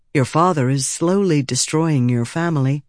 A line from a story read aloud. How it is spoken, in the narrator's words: the messenger said